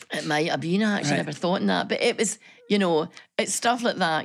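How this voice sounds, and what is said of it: Broad Glasgow Scottish accent. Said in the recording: “your broad Glasgow accent”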